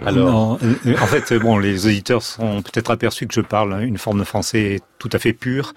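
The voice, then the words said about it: Southwestern French accent. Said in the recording (French): “ton accent du sud-ouest”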